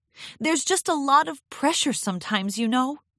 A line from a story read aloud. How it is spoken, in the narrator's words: Twilight blurted out